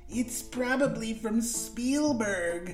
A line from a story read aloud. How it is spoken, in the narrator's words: he sneered, as though Julia should be jealous